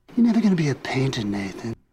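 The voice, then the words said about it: Odd quasi-British New York accent. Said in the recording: “he uses this voice as his father ... that accent is very much the accent he was using in Vampire's Kiss. It's sort of British, but not. It's this weird New York... I don't even know how to describe what the accent is”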